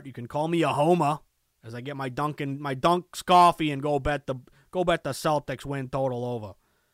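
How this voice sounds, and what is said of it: Put-on accent sounding Chicago. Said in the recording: “that's actually kind of a Chicago accent. I don't know what happened there.”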